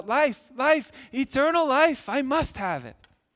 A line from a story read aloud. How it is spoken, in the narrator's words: Christian ran all the faster down the path and called out